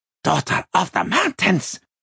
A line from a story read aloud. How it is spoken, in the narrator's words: the Troll gasped